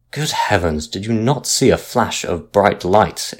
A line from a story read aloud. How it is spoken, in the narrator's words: exclaimed the captain angrily, for he thought he was being made a fool of